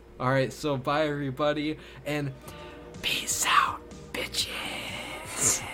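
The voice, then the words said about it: Quiet whisper, strained voice. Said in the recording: “My voice is so gone that I'm going to do a quiet version this time. I'm going to whisper”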